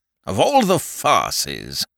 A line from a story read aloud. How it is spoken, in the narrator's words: grumbled Lord Attenbury irritably